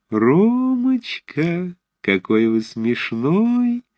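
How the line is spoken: Thin childish sing-song. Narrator (Russian): пропела она тоненьким детским голоском

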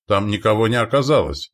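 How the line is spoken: Exclaiming. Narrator (Russian): воскликнул лидер

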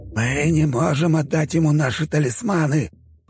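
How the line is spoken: Hiss. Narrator (Russian): прошипел ректор

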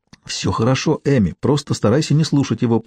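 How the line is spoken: Whisper. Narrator (Russian): прошептала Чарли

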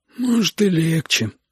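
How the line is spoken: Glum agreement. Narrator (Russian): уныло согласился Витя

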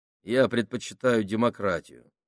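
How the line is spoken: Plain. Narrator (Russian): ответил он

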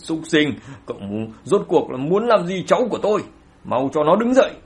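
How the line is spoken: Fierce angry roar. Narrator (Vietnamese): Ánh mắt dữ tợn gầm lên

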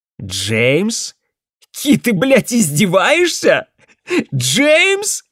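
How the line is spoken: Hysterical laughing speech. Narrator (Russian): Я начинаю смеяться, но это истерический смех

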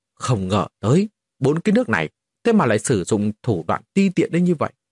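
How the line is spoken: Angry. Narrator (Vietnamese): Dịch Sơn Hà liền lập tức giận dữ

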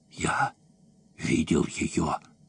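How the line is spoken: Whisper into ears. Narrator (Russian): чей-то голос прошептал прямо в уши

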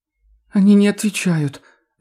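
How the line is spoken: Whiny drawl, loud sobbing. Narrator (Russian): жалобно тянет она, громко всхлипывает

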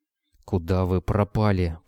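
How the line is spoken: Hissing. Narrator (Russian): прошипел Митя

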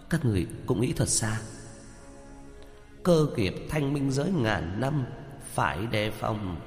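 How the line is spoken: Startled muttering. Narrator (Vietnamese): giật mình, lẩm bẩm

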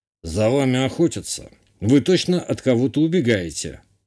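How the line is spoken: Smirking grunt. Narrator (Russian): хмыкнул глава местных контрабандистов

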